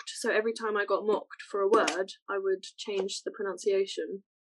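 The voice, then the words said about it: Very British accent. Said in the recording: “my accent is so very British”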